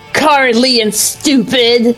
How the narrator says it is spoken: The Absol spat

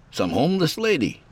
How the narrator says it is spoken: Horace chuckled at my inquiry

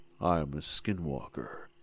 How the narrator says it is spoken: it said, its voice a low, guttural growl

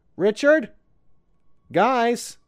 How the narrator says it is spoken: I called out

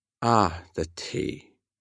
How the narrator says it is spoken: Wen Chao murmured

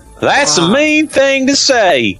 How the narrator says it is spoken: Harry screamed bravely

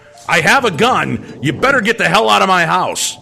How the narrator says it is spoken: Dad yelled out

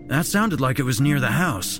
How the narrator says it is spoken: David exclaimed

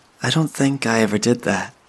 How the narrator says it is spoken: Sadie noted, smiling sadly

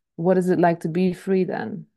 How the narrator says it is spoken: he asked

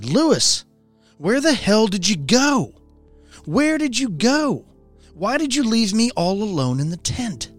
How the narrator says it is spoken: She just kept yelling at me

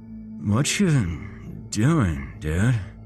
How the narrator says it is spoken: Daniel slowly slurred

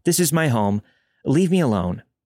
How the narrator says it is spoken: lied, yelled

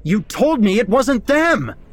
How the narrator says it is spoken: I yelled

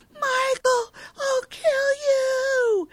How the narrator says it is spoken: yells

